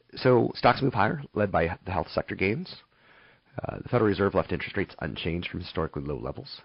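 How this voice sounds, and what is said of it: Hoarse, worn-out voice. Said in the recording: “my voice is still a little on the fried side. I'm trying to rest it a little bit”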